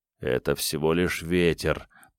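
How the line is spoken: Trembling mutter. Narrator (Russian): пробормотал Ник, дрожа

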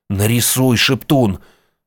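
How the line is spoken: Pleading. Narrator (Russian): взмолился Ник

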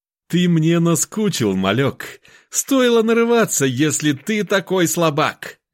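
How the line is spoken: Fake laugh. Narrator (Russian): Бородин наигранно засмеялся

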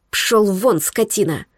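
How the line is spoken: Hissed. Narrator (Russian): прошипела

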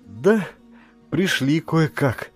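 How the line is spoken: Heavy sigh. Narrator (Russian): ответила мама, тяжело вздохнув

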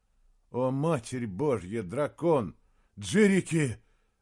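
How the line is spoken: Breathless. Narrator (Russian): выдохнул Саймон

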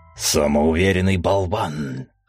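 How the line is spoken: Dragon's growl. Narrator (Russian): рычал фиолетовый дракон

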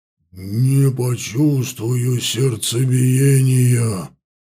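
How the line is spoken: Strained moan. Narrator (Russian): Селина простонала, пытаясь подняться

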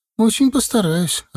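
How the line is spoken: Confused smiling. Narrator (Russian): растерянно улыбнулась Света

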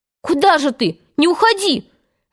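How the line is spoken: Group shouting. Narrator (Russian): закричали остальные

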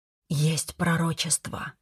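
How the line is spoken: Mother's whisper. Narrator (Russian): прошептала мама

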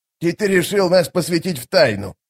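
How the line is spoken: Snorting. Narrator (Russian): фыркнул Штырь

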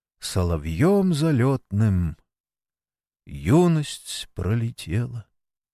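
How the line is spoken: Quiet singing to oneself. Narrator (Russian): Сергей Митрофанович тихо, ровно бы для себя запел

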